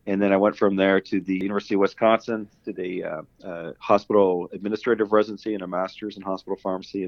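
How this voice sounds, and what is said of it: Canadian accent. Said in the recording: “the listeners will tell from my voice, I have a Canadian accent.”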